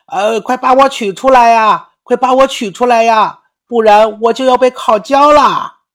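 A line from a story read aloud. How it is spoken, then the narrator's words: Loud yelling. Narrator (Chinese): 面包冲着他大声叫喊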